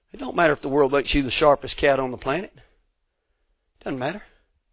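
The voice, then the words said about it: Southern rural Georgia accent. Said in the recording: “being from West Georgia ... my accent ... I sound like a redneck hillbilly”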